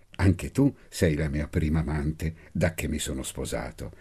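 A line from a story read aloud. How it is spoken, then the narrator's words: Soft murmur in ear. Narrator (Italian): Dolcemente mormorai all'orecchio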